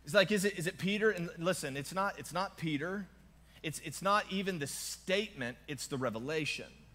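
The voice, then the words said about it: Southern twang accent. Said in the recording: “I have a Southern twang”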